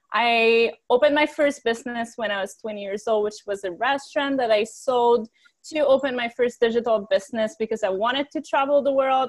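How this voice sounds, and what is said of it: Quebec French accent in English. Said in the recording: “I was born on a farm in Quebec, which is why I have an accent. I'm French.”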